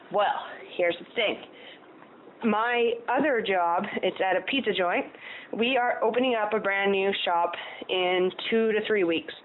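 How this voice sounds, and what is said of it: Out of breath, panting speech. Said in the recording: “Oh, I'm out of breath.”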